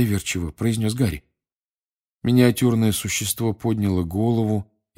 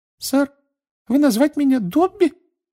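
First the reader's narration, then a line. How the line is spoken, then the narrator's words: Curious squeak. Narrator (Russian): с любопытством пискнул эльф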